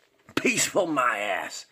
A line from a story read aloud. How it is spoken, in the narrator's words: spat Norman